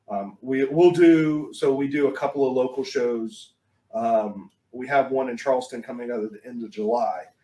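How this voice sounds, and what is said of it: Speaker's own regional accent. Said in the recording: “you're gonna get stuck with my accent.”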